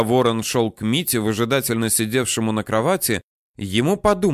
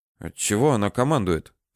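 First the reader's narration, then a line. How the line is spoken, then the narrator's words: Undertone question. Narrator (Russian): вполголоса спросил Митя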